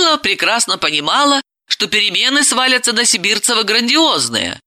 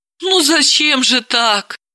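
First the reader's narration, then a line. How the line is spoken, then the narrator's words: Sighing. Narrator (Russian): вздохнула Далила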